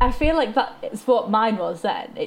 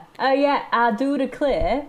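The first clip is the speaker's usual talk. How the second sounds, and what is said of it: Comically exaggerated Southern American accent. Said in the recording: “why is your Southern accent kind of comically great? ... It's comically great. It's like not necessarily 100% accurate, but it's, but it is enough that it's fine and also funny.”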